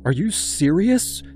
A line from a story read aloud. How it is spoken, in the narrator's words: she asked, her voice trembling